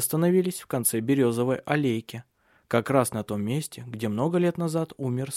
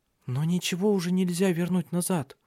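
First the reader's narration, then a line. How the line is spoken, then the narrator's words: Timid. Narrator (Russian): робко сказала Ирия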